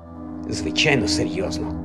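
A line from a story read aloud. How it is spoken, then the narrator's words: Grumble. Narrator (Ukrainian): буркнув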